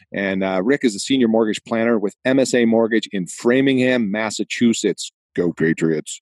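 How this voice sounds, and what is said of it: Boston accent. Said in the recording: “out of my hometown of Boston, Massachusetts. Yeah, whenever I start interviewing somebody from Boston, the accent comes back out.”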